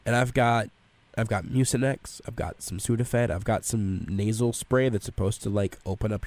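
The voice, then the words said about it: Congested, breathy voice, short breaths. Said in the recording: “dirty mouth breather ... I have to speak in short sentences and take quick breaths ... I want to be able to breathe again”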